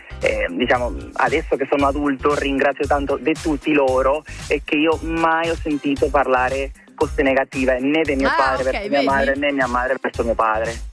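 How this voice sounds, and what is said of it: Venezuelan accent with slight Lombard inflection. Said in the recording (Italian): “Quanto mi piace questo ... Questo accento venezuelano ... hai l'accento un po' lombardo”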